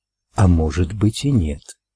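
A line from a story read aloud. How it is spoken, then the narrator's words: Whispering voice. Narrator (Russian): прошептал голос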